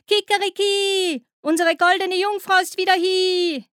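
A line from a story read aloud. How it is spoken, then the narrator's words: Rooster crowing. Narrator (German): der Hahn rief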